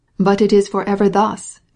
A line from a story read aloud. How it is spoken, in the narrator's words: exclaimed Sergey Ivanovitch, interrupting